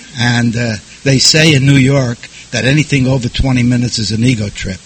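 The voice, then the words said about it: New York accent. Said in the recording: “I got sober in New York, if you can't tell by the accent”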